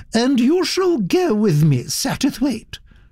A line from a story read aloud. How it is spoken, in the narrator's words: she said firmly